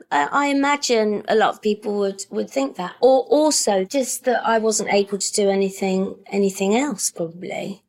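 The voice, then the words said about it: High-pitched voice, working-class accent. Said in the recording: “my voice is a bit sort of, it's a bit high, isn't it? It's always been a bit high ... you've got a high voice in a working class accent”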